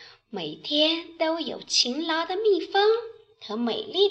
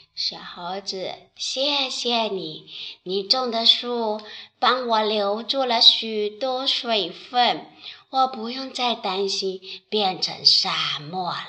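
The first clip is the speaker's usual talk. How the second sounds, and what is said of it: Low, deep character voice. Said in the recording (Chinese): “土地用低沉的声音说”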